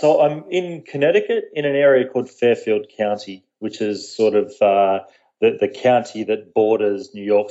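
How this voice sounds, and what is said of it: Australian accent. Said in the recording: “my deep southern accent, as a lot of people refer to it, is from about as south as you can get. I'm from Australia”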